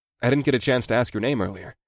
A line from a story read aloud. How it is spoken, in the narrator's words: said in a conversational tone